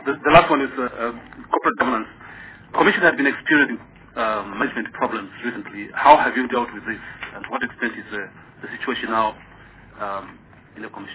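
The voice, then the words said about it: Noticeable accent. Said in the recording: “Sorry about my accent. ... Is it my pronunciation?”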